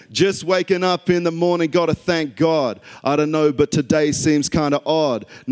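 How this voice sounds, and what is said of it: Australian accent. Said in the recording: “I'm going to do it in my Aussie accent too, because I think it's very natural.”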